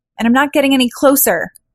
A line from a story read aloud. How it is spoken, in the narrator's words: she yelled